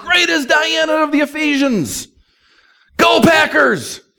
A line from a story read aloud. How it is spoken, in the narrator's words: about 20,000 people, and they're all shouting